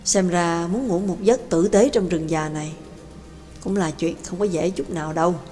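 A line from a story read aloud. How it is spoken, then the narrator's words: Wistful sigh. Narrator (Vietnamese): Nhạc Dương cảm khái thở dài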